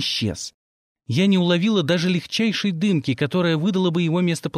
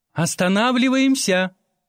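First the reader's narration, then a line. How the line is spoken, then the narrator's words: Shouted. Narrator (Russian): крикнула Шипу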